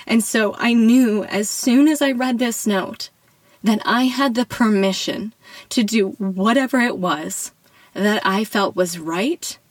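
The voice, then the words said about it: Tearful, emotional voice. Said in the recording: “As you can hear in my voice, it brings tears to my eyes now”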